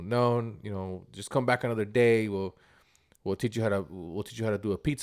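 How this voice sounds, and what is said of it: Put-on Italian New York accent. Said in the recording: “he's in a New York accent, which I'm probably not too good at it, an Italian New York accent.”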